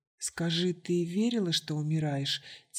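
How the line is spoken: Quiet question. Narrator (Russian): тихо спросила Баджи

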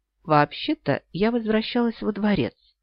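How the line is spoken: Quiet reply. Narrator (Russian): негромко ответила Эрин

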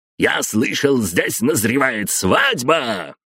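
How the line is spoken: Roar. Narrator (Russian): проревел он

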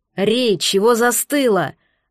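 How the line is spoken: Barking shout. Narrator (Russian): рявкнул Фэг

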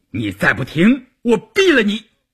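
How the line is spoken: Angry roar. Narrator (Chinese): 关山林吼道

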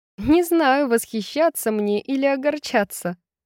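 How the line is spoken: Laughing. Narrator (Russian): засмеялась Брайс

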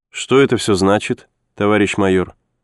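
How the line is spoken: Cold but polite question. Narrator (Russian): Холодным, но вполне любезным тоном спросила она

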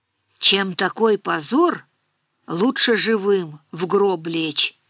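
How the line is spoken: Muffled old man's voice. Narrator (Russian): глухо произнес старик

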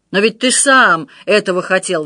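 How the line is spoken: Roaring. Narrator (Russian): взревел Отто

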